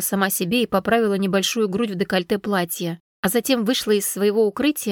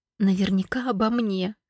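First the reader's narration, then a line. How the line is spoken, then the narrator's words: Whisper. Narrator (Russian): шепотом произнесла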